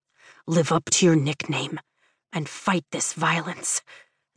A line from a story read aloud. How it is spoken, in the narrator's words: Zaydin whispers against my ear